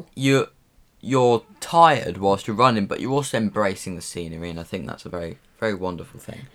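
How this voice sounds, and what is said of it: Yorkshire accent. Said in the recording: “A bit of Yorkshire accent going on there.”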